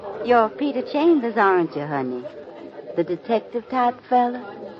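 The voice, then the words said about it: Southern drawl accent. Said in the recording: “I loves that Harmony Grits accent”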